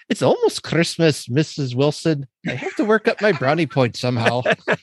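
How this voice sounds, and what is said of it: Vague Irish or Scottish accent. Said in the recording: “he's got this kind of vague Irish accent ... Although that was probably more Scottish.”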